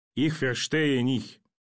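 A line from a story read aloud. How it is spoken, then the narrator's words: Indistinct forced mumble. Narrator (Russian): Пленный невнятно выдавил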